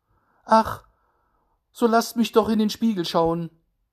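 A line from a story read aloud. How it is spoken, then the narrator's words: Child calling out. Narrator (German): rief der Kleine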